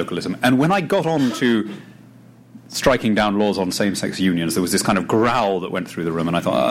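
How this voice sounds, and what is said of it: Usual voice. Nothing is said of it.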